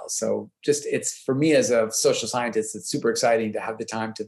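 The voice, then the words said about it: Non-Australian accent. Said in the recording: “as you can tell by my accent, I didn't grow up here”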